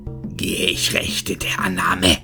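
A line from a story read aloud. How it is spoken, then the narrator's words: Hissing, furious and pained. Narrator (German): fauchte er halb wutschnaubend, halb schmerzverzerrt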